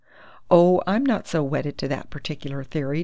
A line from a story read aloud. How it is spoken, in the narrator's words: Dundee laughed